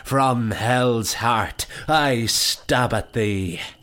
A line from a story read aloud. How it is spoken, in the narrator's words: Lee assumed the position of his best Captain Ahab and cried